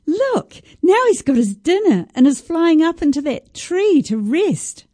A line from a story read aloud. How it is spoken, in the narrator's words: I exclaimed